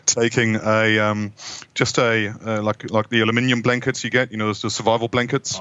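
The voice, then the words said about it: German-New Zealand accented English. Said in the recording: “a German Kiwi accent”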